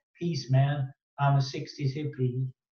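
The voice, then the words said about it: Poor sixties hippie impression. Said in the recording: “what a terrible impression, by the way.”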